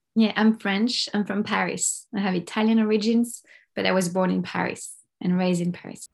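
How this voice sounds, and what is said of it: French accent. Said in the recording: “I hear immediately that there's an accent there”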